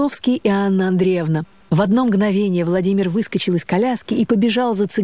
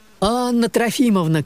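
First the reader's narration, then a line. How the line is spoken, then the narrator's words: Shouting. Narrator (Russian): кричал Василий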